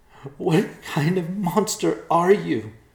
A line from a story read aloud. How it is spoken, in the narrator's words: cried